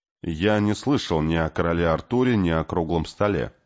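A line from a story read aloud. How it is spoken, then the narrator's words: Plain. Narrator (Russian): ответил Кей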